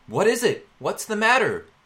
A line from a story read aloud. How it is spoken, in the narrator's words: Thomas called out in reply